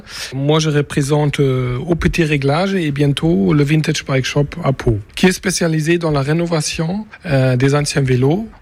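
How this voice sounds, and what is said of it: German accent speaking French. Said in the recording (French): “un Béarnais à l'accent allemand”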